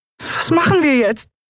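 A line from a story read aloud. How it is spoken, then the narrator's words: Squeaky, frightened. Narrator (German): piepste sie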